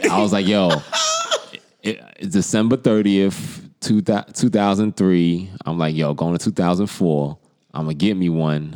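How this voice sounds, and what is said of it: New York accent. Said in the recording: “my New York accent cuts through on that party line”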